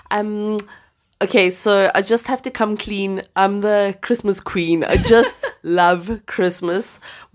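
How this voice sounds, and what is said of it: Stuffy congested voice. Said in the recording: “forgive my voice because um, I've just had a little bit of a cold, so sorry if I sound a bit stuffy.”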